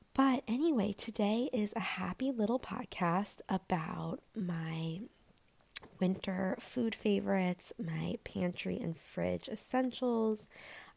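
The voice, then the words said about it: Slightly raspy voice. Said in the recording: “I can tell that my voice is a little bit raspy.”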